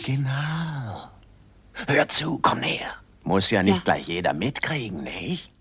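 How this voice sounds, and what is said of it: Dubious whispering dealer character voice. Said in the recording (German): “diese dubios flüsternde Dealerfigur aus der Sesamstraße”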